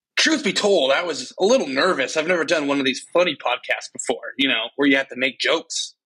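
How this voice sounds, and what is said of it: Animated Joel Murray impression. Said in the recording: “Is that your Joel Murray impression? ... He has more character. He has the voice a little bit down. ... he was more animated”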